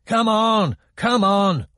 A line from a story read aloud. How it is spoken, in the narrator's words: one of the guards shouted